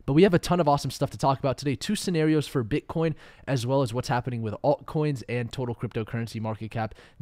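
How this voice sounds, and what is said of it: Slightly off, sick-sounding voice. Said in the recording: “I'm a little bit sick, so you'll also hear my voice is a little bit off”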